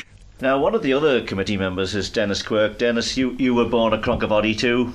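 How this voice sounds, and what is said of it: Strong Manx accent. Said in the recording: “His Manx accent was soaked in character”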